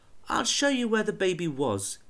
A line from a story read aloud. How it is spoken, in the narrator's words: he said gently